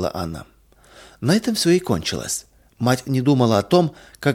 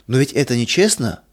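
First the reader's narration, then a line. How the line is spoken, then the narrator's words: Child exclaiming. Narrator (Russian): воскликнул малыш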